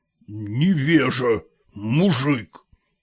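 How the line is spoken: Through gritted teeth. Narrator (Russian): процедил сквозь зубы Холмогоров

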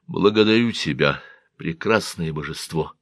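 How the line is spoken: Quiet. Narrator (Russian): тихо сказал он

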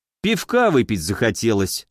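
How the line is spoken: Wry snort. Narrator (Russian): снова хмыкнул я

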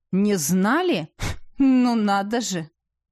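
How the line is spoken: Loud scornful grunt. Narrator (Russian): Палач громко хмыкнул

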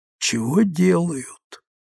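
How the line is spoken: Whisper. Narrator (Russian): прошептала Вера

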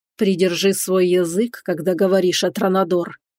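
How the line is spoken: Through gritted teeth. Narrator (Russian): процедил сквозь зубы Рейтон

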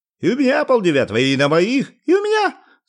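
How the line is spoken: Several voices shouting. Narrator (Russian): закричали обладатели собственных часов

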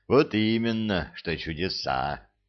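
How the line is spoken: Sighing. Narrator (Russian): вздохнул Арсантен

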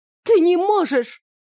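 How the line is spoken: Near shriek. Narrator (Russian): едва ли не завизжала она

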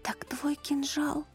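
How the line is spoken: Whisper. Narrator (Russian): прошептала Манива

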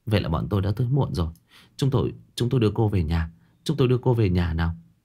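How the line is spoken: Weary, gentle voice. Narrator (Vietnamese): Dư Tô cô đầu dầu dĩ nói

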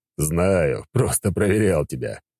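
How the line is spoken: Chuckling reply. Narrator (Russian): Хохотнул в ответ

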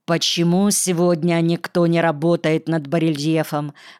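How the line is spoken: Plain. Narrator (Russian): спросил Антон

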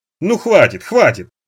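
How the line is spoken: Laughing. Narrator (Russian): смеясь жена

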